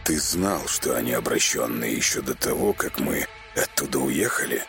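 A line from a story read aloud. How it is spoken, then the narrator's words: Icy voice. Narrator (Russian): Ледяным голосом спросил Темный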